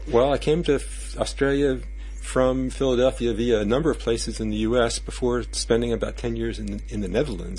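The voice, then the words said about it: Non-Australian accent. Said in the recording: “you have an accent which is not Australian”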